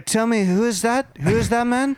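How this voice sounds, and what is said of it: Poorly imitates another person's voice. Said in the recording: “The Trump is so bad. ... I'm glad that you're doing this Trump impersonation too, because it's so bad.”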